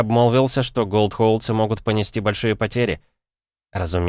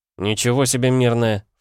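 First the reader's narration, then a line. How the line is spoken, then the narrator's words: Snorting. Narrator (Russian): фыркнул Слипер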